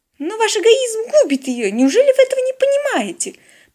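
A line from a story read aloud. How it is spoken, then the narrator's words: Dramatic exclamation. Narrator (Russian): патетично воскликнула корреспондентка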